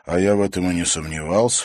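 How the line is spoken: Snorting. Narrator (Russian): фыркнул Димка

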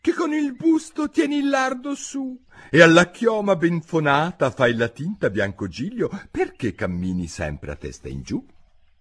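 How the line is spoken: Son shrieking. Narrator (Italian): strillò al padre il figlio

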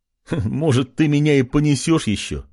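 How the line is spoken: King laughing. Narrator (Russian): Рассмеялся король

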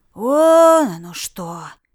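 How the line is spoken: Drawling. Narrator (Russian): протянул Ред

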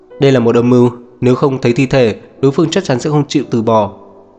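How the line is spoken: Irritated raised voice. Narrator (Vietnamese): Diệp Uyên bực bội nâng cao giọng

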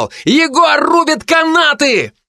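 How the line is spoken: Yelling. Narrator (Russian): молчаливый Эд заорал

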